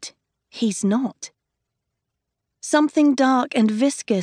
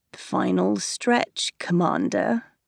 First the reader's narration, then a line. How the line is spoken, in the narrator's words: he murmurs